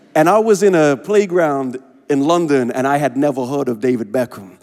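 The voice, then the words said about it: Unusual mixed accent. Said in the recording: “I have a strange accent ... developed a strange accent”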